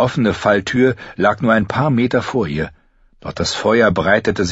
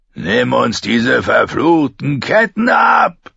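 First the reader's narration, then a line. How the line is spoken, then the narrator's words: Shrieking. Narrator (German): kreischte Rorge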